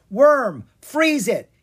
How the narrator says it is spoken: he yelled

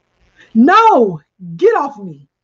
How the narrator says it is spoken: she screamed

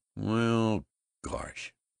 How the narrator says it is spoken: sighed Ted

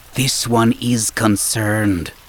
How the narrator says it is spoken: Saba muttered to Jason

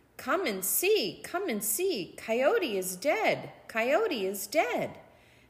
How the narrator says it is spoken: He called out

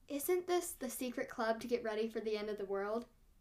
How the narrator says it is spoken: she asks, her voice even softer than mine

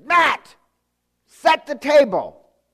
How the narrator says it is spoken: my sister, who's a bit of a yeller, she said

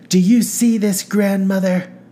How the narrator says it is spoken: said Carolyn, a haughty cackle in her voice

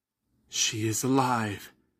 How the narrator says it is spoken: he sighed, relieved

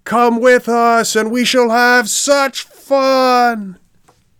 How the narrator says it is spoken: shouted in chorus 100 voices from inside the coach

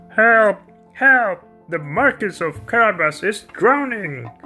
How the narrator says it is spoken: the cat called out

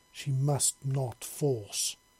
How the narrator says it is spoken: Citrus said sternly

